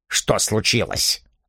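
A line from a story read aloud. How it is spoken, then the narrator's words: Curt, abrupt question. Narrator (Russian): отрывисто спросил Чарльз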